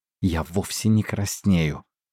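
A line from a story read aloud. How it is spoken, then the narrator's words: Hiss. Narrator (Russian): прошипела Линь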